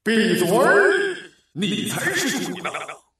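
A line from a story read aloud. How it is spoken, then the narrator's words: Thunderous roar. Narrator (Chinese): 一声巨吼在耳边炸响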